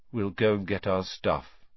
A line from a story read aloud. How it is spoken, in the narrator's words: said Ron, in a hopeless sort of voice